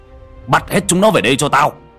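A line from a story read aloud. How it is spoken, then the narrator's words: Composed man shouting. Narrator (Vietnamese): ông Khôi lấy lại bình tĩnh hét lên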